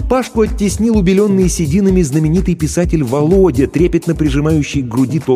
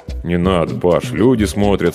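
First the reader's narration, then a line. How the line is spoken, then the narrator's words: Embarrassed mumble. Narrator (Russian): смущенно пробормотал я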